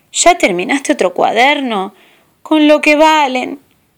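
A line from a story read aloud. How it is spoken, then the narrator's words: Mothers grumbling. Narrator (Spanish): rezongaban y decían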